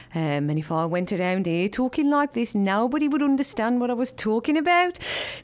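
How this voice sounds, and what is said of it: Birmingham accent in minor key. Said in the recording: “Birmingham, which is my home city. So the accent there is something more along the lines of this. It's in a very minor key.”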